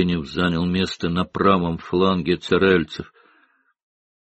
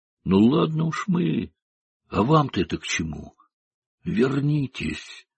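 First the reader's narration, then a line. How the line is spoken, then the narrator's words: Urgent whisper. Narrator (Russian): Скалкин горячо зашептал Старлейту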